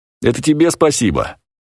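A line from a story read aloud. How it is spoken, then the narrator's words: Cheerful, slightly embarrassed. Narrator (Russian): весело и с некоторым смущением ответил Снежин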